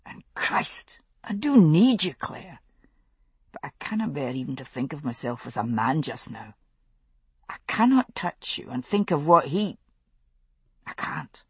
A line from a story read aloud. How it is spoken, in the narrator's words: he said quietly